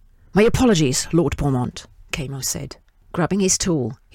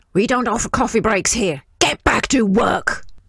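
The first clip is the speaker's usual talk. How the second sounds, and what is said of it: Raspy, irritated yelling character voice. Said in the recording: “he yelled in a raspy voice, evincing irritation”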